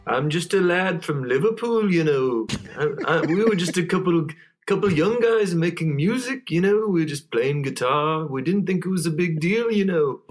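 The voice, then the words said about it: Weak put-on Liverpool accent. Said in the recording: “We got voices, character work ... that was my Liverpool accent ... my accent has actually gotten worse over the years ... I'm notoriously very bad at doing any impressions ... your Liverpool accent”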